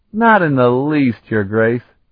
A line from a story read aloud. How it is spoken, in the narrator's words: Carlton replied gaily